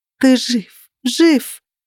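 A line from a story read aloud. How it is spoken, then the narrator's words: Sobbing, hiccuping repetition. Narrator (Russian): Я не могла остановиться и повторяла эти слова снова и снова, хотя уже начала икать от рыданий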